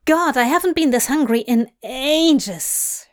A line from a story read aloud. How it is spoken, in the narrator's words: she groans